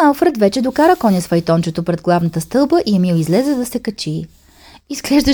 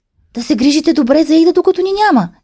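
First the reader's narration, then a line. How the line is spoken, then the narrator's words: Mother calling out. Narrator (Bulgarian): извика майката на Емил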